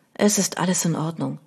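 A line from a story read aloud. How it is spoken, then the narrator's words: Quiet. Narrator (German): sagte leise zu ihm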